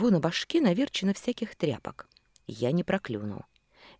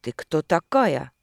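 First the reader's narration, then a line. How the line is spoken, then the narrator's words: Sharp barking question. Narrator (Russian): резко спросила, как пролаяла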